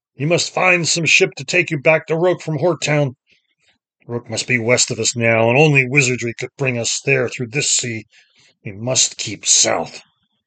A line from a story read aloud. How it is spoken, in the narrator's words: the master bellowed through the wind and the rain